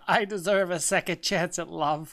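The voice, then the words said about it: Imitates a reality dating-show contestant. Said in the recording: “Sound like he's on The Bachelor. ... That's my impression of the Bachelorette, all the guys that are on The Bachelor shows.”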